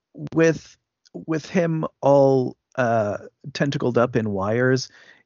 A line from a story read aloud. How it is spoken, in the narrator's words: he yells at him